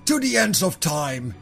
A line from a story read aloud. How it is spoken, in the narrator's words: the Khan thundered